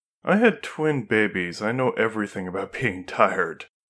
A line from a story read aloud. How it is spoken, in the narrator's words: replied with another laugh